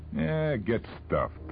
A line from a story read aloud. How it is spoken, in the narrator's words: the Harlequin replied, sneering